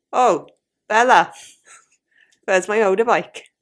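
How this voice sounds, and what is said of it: Put-on Welsh accent, fairly decent. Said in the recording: “A little bit of Welsh, maybe. ... That's not bad.”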